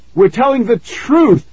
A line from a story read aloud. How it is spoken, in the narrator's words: Nikki shouted